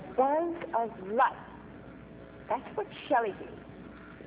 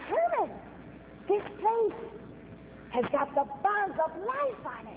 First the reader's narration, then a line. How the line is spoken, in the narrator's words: he exclaimed